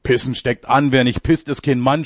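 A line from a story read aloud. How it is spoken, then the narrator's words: Shouting. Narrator (German): schreit er jetzt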